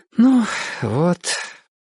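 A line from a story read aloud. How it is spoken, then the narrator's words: Tired, after a pause. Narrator (Russian): устало сказала Мария Семеновна после паузы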